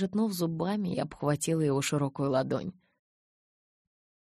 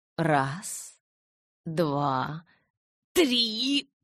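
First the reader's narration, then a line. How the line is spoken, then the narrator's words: Strained wheeze. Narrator (Russian): прохрипел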